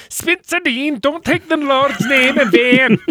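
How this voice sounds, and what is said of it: Weird Scottish-Welsh blended accent. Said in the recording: “It was like she was some sort of weird Scottish-Welsh blend.”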